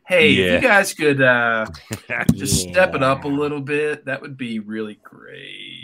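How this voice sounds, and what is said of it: Impression of Office Space boss. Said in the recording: “I picture him being more like the boss from Office Space, just walking around, be like”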